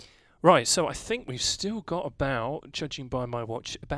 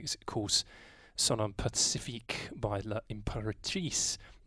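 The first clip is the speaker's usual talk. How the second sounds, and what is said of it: Poor put-on French accent. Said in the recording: “My terrible French accent.”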